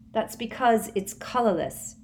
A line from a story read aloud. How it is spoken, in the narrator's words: said Ginny, in a convincingly exasperated voice